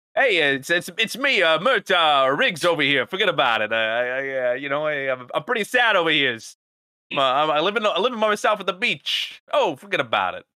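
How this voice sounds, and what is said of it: Put-on New York accent. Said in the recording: “Do a New York accent”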